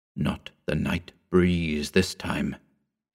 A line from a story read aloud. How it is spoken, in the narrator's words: he whispered